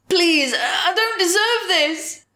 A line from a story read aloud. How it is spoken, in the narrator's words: sobbed